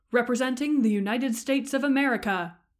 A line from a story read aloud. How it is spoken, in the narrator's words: booms the announcer